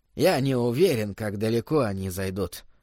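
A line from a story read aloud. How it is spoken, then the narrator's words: Soft. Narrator (Russian): мягко произнес Корнелл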